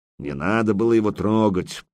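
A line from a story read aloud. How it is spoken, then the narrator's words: Grumbling. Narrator (Russian): проворчал Яруш, баюкая поврежденную руку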